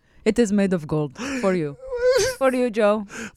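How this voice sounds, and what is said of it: Put-on Indian-sounding accent. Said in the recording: “I don't even know what accent I'm doing... Why do I sound Indian?... It's horrible”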